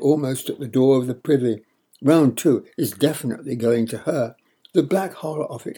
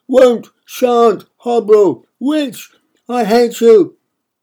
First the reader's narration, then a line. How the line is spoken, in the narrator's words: shout back